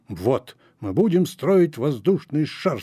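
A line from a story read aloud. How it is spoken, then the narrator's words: Plain. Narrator (Russian): сказал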